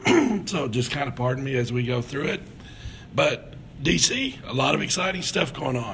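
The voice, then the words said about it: Hoarse, nearly lost voice. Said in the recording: “my voice is about gone ... I'm not sure what's happening with my voice”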